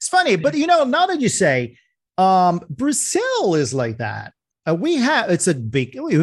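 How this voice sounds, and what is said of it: Usual voice. Nothing is said of it.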